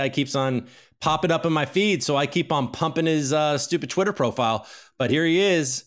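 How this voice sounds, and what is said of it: Usual voice. Nothing is said of it.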